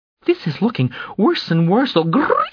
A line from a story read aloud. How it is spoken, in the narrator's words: Fleer Imseho said, voice breaking, screeching